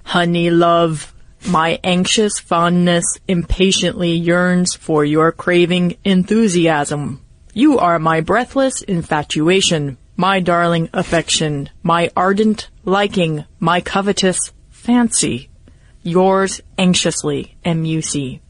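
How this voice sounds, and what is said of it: Robotic voice. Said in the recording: “Read it in a robot voice ... the robot accent is pretty easy”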